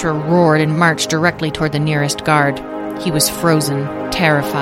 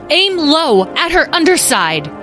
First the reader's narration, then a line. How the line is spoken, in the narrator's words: Roar